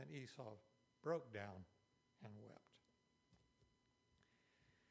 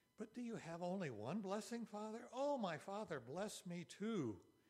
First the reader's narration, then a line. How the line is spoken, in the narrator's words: Esau pleaded